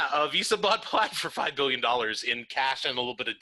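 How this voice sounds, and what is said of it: Usual voice. Nothing is said of it.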